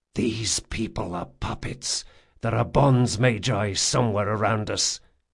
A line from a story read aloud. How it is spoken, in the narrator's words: he hissed